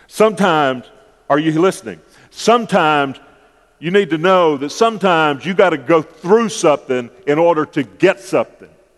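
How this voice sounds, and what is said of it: Preacher-style sermon voice. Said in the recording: “I'm using my preacher voice on this one.”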